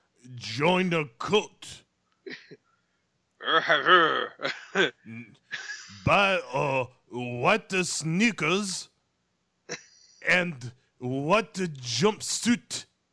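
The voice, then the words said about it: Put-on accent drifting Italian or French. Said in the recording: “my totally legitimate accent. ... It's for some reason it's kind of went Italian. ... or French. ... that accent just went off without me.”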